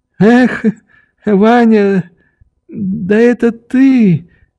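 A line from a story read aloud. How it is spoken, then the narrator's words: Unsteady voice. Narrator (Russian): проговорил он неровным голосом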